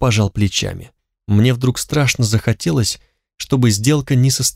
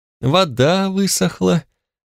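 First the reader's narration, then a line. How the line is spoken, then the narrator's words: Deeply sorrowful sigh. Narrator (Russian): вздохнул оценщик с такой грустью, будто речь шла о чьей-то иссякшей крови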